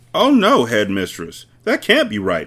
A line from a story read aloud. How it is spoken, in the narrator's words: Miss Honey cried